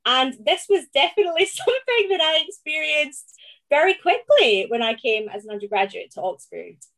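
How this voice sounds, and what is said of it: Scottish accent. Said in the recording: “as Scots, we come to Oxford and sound different”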